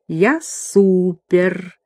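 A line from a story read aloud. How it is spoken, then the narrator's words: Purring. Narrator (Russian): она промурлыкала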